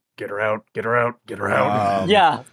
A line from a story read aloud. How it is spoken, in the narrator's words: Jørgen will just sort of mumble under his breath